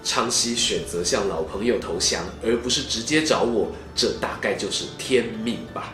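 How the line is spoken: Sighing, reflective. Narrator (Chinese): 曹操感叹地说

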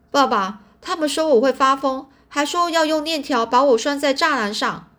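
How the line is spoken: Crying out. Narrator (Chinese): 我就叫着说

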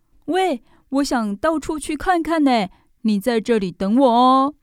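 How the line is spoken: Sudden shout. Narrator (Chinese): 宝儿突然对小兔子大喊

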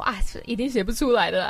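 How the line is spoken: Adults, teasing laughter. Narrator (Chinese): 他们几个大人在群组里面笑我说

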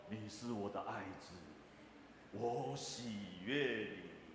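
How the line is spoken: Voice from heaven. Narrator (Chinese): 天上有声音下来说

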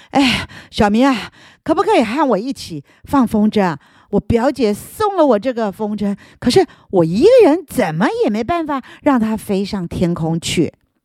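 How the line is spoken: Panting, out of breath. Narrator (Chinese): 他大口喘气的说着

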